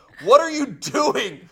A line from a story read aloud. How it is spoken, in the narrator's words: the mother kept saying